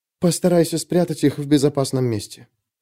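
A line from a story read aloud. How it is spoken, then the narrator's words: Whispered. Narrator (Russian): прошептала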